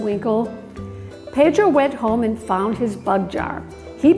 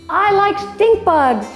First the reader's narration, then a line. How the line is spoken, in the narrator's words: shouted Roddy